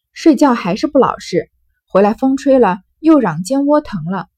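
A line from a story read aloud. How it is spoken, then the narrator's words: Sighing. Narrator (Chinese): 宝玉 叹道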